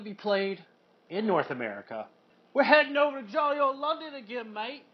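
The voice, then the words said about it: Put-on English accent. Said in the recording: “your accent was baffling. ... That's English accent, mate.”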